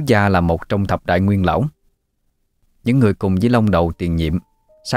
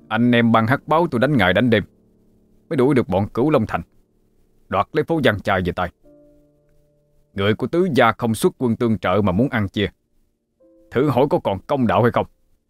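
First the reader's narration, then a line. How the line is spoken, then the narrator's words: Angry. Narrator (Vietnamese): Báo ca tức giận nói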